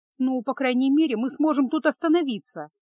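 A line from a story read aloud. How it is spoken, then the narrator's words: Exclaimed. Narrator (Russian): воскликнула Феска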